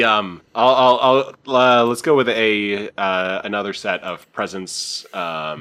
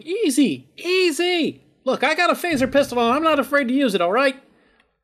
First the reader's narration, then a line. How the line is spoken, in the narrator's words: Car is just shouting